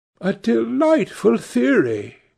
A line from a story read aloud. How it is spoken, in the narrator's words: she exclaimed